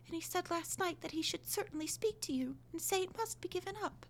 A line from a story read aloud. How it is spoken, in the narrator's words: continued, almost in a whisper